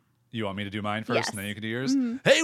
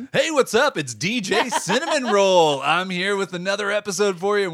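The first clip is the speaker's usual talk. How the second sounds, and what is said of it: Radio DJ voice. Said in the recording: “Do your DJ voice”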